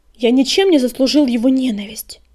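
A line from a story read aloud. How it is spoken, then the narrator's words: Snapped. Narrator (Russian): огрызнулся Огнегриф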